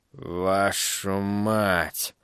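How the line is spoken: Exhaled words. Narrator (Russian): выдохнул он

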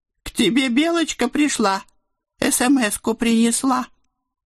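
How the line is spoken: Nasty cartoonish squeaky voice. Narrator (Russian): противным мультяшным голоском предупредил мой сотовый

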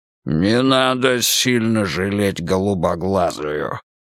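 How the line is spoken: Growling. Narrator (Russian): прорычал получеловек

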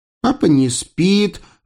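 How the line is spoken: Child's joyful squeal. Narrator (Russian): радостно взвизгнуло дитя

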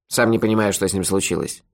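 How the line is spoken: Grumble. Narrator (Russian): проворчал Мохи

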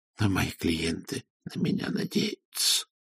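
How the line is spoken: Muttering. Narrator (Russian): пробормотал Ронни Суах

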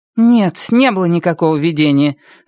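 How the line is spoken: Irritated. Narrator (Russian): раздраженно сказала она

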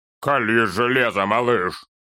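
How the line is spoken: Muffled command. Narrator (Russian): Глухо приказал Торин другу

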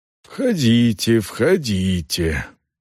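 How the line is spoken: Quiet, slightly hoarse. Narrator (Russian): проговорила она негромким, чуть осипшим голосом

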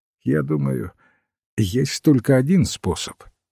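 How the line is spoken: Sad professor's remark. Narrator (Russian): грустно заметил профессор

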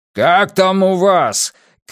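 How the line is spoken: Shout. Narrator (Russian): крикнул Уайерман

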